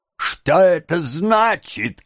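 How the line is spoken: Shouted. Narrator (Russian): крикнул еврей

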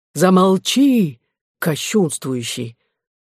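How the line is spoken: Angry exclamation. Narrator (Russian): воскликнул гневно монах

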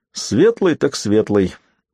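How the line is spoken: Laughing. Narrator (Russian): засмеялся Дунк

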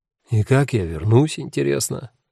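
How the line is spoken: Gloomy question. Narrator (Russian): мрачно осведомился Симон

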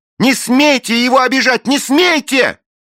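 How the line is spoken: Shouting while struggling. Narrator (Russian): Белинда колотила дедушкиного оскорбителя ногами и кричала

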